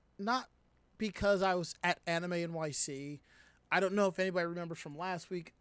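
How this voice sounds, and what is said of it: Hoarse, worn-out voice. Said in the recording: “my voice is kind of shot ... my throat was bothering me”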